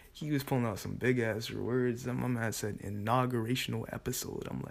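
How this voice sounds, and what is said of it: Usual voice. Nothing is said of it.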